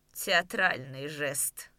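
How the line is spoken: Said mockingly, smiling. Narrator (Russian): сказал, насмешливо улыбаясь

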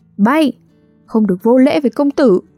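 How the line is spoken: Shout from behind. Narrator (Vietnamese): một tiếng hét ở sau lưng

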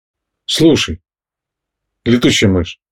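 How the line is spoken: Quiet bear cub voice. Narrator (Russian): тихо произнес медвежонок

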